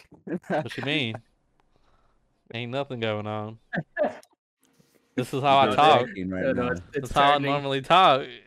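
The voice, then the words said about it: Put-on country accent. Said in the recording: “you were talking to her in the country accent ... You go country back to accent”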